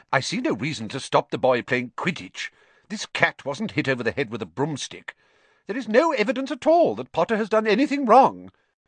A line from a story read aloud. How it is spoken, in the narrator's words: said Professor McGonagall sharply